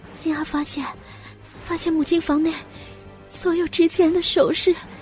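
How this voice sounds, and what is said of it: Choked, trembling little girl's voice. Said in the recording (Chinese): “小小的女孩声音哽咽 ... 微微惊讶又颤抖的声音”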